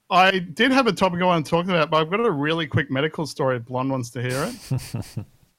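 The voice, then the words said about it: Australian accent. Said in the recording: “Get a sweet Aussie accent in here”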